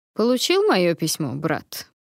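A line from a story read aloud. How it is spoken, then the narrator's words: Dry greeting, dragon. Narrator (Russian): Сухо поприветствовал меня пятый дракон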